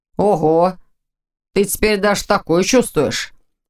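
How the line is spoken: Snort with clear worry. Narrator (Russian): хмыкнул Ваня, но в его голосе прорезалось явное беспокойство

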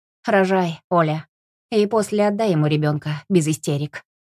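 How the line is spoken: Mother's nervous grunt, then speech. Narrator (Russian): Мать нервно хмыкнула и сказала

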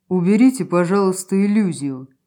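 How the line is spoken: Perfectly calm speech. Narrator (Russian): совершенно спокойно проговорил

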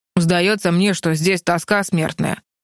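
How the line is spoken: Boy's grumble. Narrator (Russian): проворчал мальчишка

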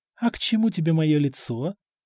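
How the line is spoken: Purring, seductive woman. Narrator (Russian): промурлыкала женщина

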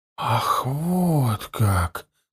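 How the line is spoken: Whisper. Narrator (Russian): прошептал он

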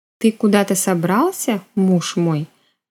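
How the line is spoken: Flat colorless voice. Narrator (Russian): бесцветным ровным голосом произнесла я

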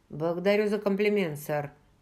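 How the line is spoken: Dry reply. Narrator (Russian): сухо ответил Джейми

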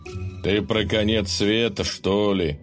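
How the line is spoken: Snorting grunt. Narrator (Russian): хмыкнул Добрыня

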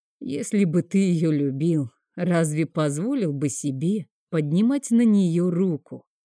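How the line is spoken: Calm, even-voiced question. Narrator (Russian): Не повышая голоса, спокойно спрашивает

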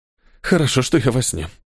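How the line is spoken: Fearful exhale. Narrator (Russian): со страхом выдохнул Неэль

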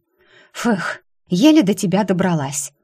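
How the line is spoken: Breathless exhale. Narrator (Russian): выдохнула Кара

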